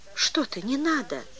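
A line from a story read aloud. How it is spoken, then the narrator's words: Confused. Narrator (Russian): растерянно сказал он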